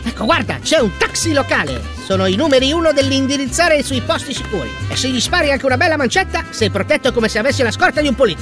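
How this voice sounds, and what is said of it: Fake Central American accent. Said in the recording (Italian): “fingo accento del Centro America ... l'accento”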